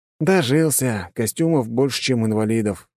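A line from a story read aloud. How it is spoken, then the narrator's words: Sigh. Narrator (Russian): вздохнул я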